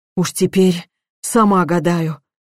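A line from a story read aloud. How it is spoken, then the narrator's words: Sighed again. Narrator (Russian): вновь вздохнула она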